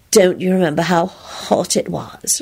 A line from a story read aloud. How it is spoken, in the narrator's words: she purred throatily